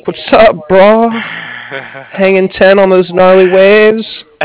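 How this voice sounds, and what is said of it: Put-on California surfer accent. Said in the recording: “Come out to California and we'll give you a whole nother accent.”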